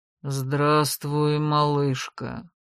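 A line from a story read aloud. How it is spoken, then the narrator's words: Flat, unfamiliar voice. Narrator (Russian): безэмоциональным голосом, не похожим на его собственный, заговорил вдруг Лексин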